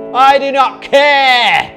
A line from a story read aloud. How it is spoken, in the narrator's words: screamed